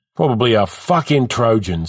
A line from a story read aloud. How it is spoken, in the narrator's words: says College